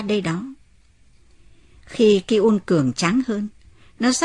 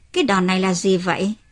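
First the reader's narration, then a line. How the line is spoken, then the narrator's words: Smiling. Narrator (Vietnamese): Ki-un mỉm cười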